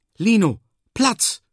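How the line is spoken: Call. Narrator (German): rief

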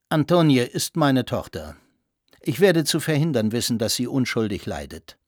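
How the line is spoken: Calm, firm. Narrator (German): sagte ruhig und fest

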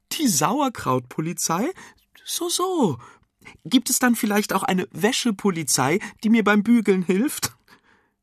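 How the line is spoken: Giggling. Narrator (German): kichernd

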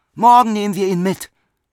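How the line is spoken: Calling out. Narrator (German): rief Bruno

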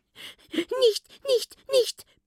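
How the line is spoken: Frightened small squeak. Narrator (German): piepst ihr das Stimmchen erschrocken entgegen

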